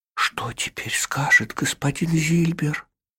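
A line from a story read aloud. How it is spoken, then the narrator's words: Boy muttering. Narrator (Russian): пробормотал мальчик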